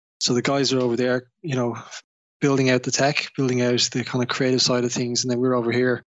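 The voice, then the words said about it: Irish accent. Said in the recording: “I don't know if you probably know from my name and my accent that I'm originally from Ireland. So I was born and raised in Dublin”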